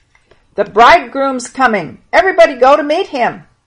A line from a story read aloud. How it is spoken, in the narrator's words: they heard somebody shouting